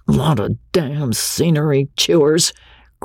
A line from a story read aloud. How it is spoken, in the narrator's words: growled the crew, turning in sleep